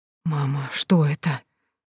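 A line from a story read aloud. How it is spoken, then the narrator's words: Whispered. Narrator (Russian): зашептала я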